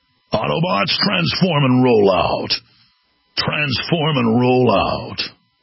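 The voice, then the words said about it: Optimus Prime impression. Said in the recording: “What about an Optimus Prime?”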